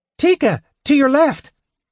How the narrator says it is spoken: yelled Tasselhoff shrilly

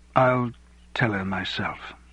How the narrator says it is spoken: he said quietly, tears coursing down his cheeks

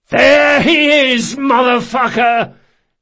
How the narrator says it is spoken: Locke yelled

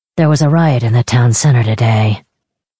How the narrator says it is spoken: Kavik muttered

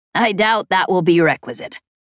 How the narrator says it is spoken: Chet said with a chuckle

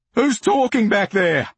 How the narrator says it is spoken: the gunman shouts

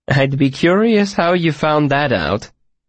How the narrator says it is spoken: chuckled

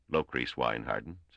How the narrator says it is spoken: said Wina

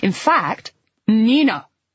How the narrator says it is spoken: Flo said again, more angrily this time

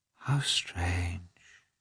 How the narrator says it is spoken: she murmured

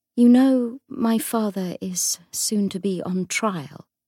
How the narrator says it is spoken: she said slowly

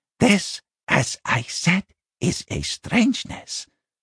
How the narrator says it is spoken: Binnabik rasped

